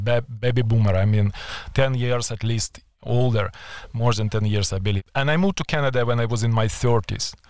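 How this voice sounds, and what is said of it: Non-native English accent. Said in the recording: “my accent will never go away”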